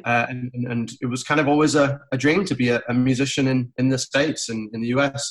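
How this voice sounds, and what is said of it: English accent. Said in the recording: “this accent is not a coastal Georgia accent ... such a beautiful accent ... I don't sound like I'm from around here. I'm from England originally.”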